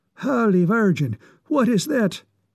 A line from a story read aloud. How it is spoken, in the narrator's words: exclaimed Mickey McSquizzle with something like horrified amazement